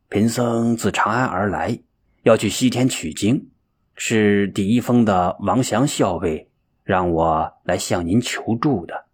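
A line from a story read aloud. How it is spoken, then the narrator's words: Nervous murmur. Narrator (Chinese): 玄奘从心眼里有些发怵 喃喃说道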